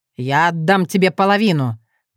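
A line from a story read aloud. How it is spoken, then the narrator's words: Growl. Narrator (Russian): прорычал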